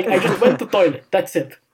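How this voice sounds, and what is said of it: Imitated Russian accent. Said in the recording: “in his Russian accent”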